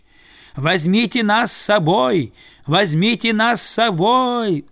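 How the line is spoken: Yelling in chorus. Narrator (Russian): завопили они

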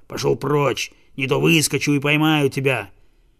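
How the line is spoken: Growling dog. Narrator (Russian): Вдруг цепной пес прорычал

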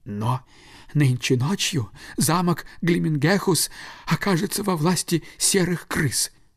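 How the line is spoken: Sighing stork. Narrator (Russian): вздохнув, сказал аист

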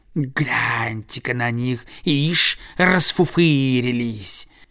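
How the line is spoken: Hissing birds. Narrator (Russian): другие птицы шипели

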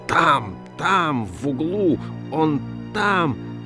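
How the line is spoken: Shouted. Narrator (Russian): Он кричал

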